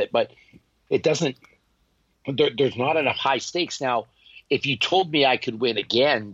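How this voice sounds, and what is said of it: Strained, failing voice. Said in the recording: “I'm losing my voice a bit”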